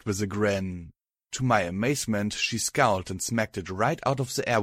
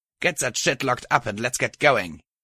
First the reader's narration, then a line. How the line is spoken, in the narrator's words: she said crossly